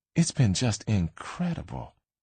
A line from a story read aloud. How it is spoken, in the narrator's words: Jackie said, her voice low and soaked in something like lust